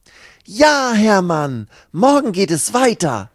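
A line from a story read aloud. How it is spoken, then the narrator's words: Calling out. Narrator (German): ruft Lucy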